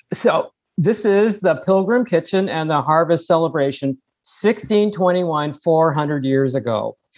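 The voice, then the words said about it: Noticeable accent. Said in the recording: “speak clearly so we can understand you and understand your accent?”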